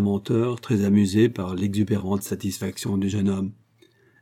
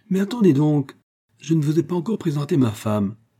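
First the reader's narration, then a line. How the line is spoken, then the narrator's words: Self-important exclamation. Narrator (French): s'exclama Léon avec un certain air d'importance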